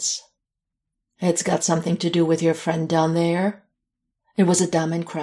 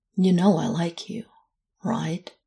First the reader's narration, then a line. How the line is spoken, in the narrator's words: he asked, softly